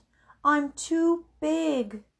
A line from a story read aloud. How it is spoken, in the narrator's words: moaned the whale